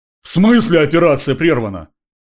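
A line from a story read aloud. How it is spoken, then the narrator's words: Astonished roar. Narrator (Russian): взревел Зимин, изумленно глядя на меня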